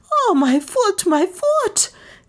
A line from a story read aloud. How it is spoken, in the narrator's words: she squealed hysterically